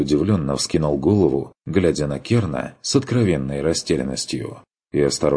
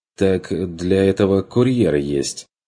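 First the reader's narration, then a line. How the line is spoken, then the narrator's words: Uncertain objection. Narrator (Russian): возразил Бруно неуверенно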